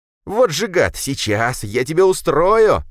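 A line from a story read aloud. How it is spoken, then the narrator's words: Panicked shrill squeal. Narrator (Russian): Завизжал мужичонка, панически мечась по пещере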